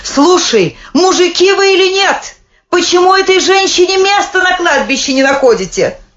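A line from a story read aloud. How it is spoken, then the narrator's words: Shouting woman. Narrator (Russian): Жена хлебника Агабалы закричала своему сыну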